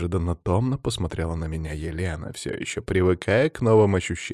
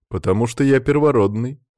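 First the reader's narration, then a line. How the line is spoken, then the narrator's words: Smirking grunt. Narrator (Russian): хмыкнул я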